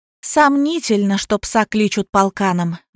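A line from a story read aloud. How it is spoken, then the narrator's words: Sighing. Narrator (Russian): вздохнула Лиза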